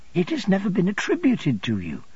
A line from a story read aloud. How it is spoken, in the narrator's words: I returned, earnestly responding to her earnestness